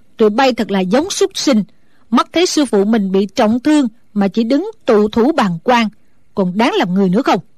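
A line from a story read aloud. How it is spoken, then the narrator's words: Loud scolding shout. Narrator (Vietnamese): Mụ không khỏi mềm lòng, quát lớn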